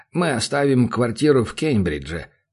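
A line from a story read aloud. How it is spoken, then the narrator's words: Plain. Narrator (Russian): говорит Гарольд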